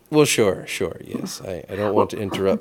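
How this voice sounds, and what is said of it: Old-timey transatlantic accent. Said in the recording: “how can you steal the room with that voice? ... the voice I do when I'm trying to be old-timey ... the quintessential, like, trans-American, transatlantic made-up accent”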